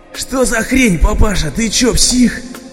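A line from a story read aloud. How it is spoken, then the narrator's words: Hulking man yelling. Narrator (Russian): Завопил шкафоподобный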